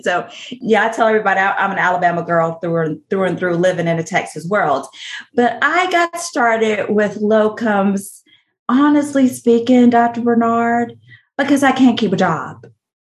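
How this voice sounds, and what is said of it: Southern US accent. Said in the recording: “accent is real. It is a real bona fide Southern accent.”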